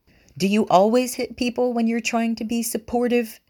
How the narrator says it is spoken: Miwa shouts back

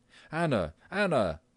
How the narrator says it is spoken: yelled the father through the hall into the kitchen

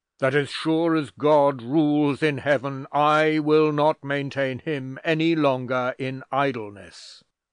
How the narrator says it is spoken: said the doctor, speaking more loudly than was his wont, and with wrath flashing from his eyes

